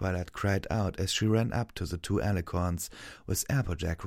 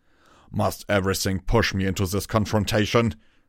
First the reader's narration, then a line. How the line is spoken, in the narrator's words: Torado growled